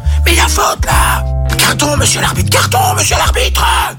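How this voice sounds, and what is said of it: Whispered shouting. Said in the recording (French): “crier sur l'arbitre, mais en chuchotant”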